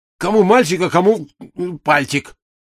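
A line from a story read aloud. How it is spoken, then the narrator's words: Snapped back. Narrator (Russian): огрызнулся Сенька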